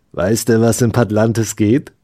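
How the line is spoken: Plain question. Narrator (German): fragte Steffo

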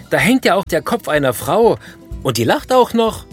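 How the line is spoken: Screaming. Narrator (German): schreit der Besucher

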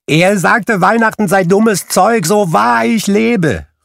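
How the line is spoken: Calling out. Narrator (German): rief Scrooges Neffe

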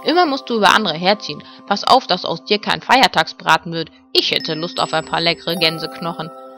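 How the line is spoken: Grumbled. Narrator (German): brummte Ben

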